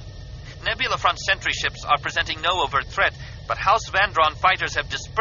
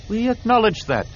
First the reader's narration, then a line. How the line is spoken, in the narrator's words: Tian replied in a calm voice